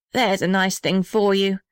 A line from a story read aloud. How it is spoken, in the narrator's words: said the little red house bitterly